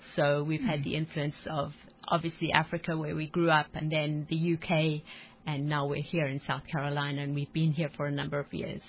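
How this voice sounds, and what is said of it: Southern African accent with British influence. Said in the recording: “Southern African accent ... a little bit of accent from there as well blended in ... our accents are now almost not specific to any particular region”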